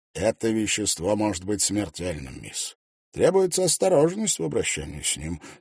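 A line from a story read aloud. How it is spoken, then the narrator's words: Calm answer. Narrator (Russian): спокойно ответил аптекарь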